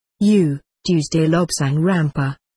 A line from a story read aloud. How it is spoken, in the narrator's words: he said